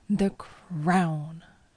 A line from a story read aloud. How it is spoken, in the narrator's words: I said angrily